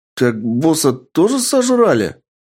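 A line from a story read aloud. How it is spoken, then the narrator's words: Shocked exclamation. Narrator (Russian): воскликнул шокированный Гай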